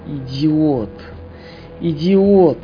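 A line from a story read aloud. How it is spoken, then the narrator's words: Moaning, oddly confident. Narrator (Russian): простонал Михаил Михайлович со странной для его положения уверенностью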